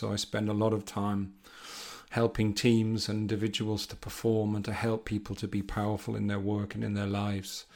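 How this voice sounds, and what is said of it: Northeast English accent. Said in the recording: “as you can hear from my accent, um, I'm British. I'm from the northeast of England”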